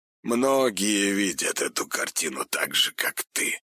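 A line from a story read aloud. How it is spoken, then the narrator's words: Hoarse reply. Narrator (Russian): хрипло ответил Большаков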